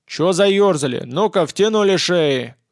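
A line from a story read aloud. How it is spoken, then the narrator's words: Commanding shout. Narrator (Russian): Вполне командным голосом крикнул очкарик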